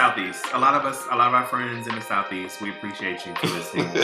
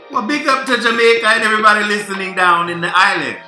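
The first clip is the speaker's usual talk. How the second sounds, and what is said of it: Put-on Jamaican accent. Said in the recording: “That was my best impersonation of a Jamaican accent.”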